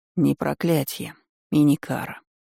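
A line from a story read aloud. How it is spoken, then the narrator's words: Cold. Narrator (Russian): холодно выдал Редхейвен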